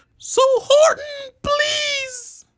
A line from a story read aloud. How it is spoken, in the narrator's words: pleaded the voice of the mayor's